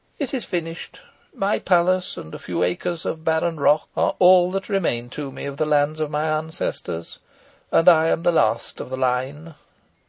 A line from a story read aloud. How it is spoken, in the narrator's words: said my guest, mournfully